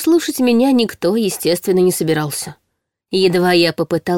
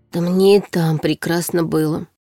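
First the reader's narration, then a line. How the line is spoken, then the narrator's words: Hoarse grumble. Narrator (Russian): хрипло ворчала я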